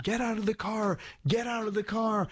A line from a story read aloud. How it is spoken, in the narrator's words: screaming